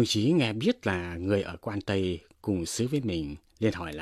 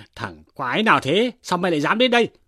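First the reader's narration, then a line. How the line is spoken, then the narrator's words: Monk's angry shout. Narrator (Vietnamese): Nhà sư quát rằng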